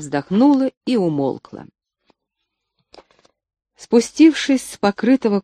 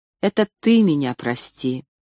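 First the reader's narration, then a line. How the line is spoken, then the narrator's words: Calm interruption. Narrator (Russian): прервал он спокойно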